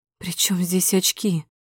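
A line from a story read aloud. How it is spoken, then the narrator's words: Timid speech. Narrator (Russian): говорю робко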